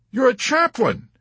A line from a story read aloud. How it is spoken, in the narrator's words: he exclaimed ecstatically